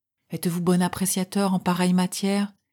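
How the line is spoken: Sighing. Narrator (French): fit le magistrat en soupirant

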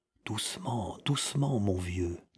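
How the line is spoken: Low voice. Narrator (French): dit Joseph à voix basse

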